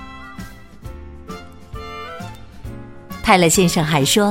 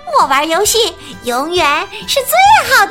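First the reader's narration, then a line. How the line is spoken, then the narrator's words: Loud shout. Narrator (Chinese): 莎莉大声喊道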